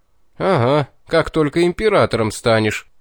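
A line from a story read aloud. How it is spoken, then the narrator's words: Disbelieving chuckle. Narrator (Russian): хохотнул неповеривший мне Вельд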